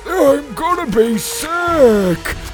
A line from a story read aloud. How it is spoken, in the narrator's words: moaned Petey